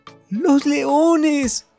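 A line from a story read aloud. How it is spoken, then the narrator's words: Sudden frightened shout. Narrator (Spanish): gritó de repente al verse rodeada de las fieras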